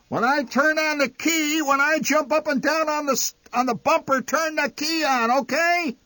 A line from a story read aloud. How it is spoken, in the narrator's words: Enraged, the old man shouting